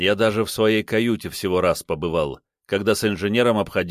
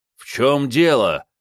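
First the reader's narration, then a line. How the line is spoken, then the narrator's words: Angry bark. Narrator (Russian): зло рявкнул я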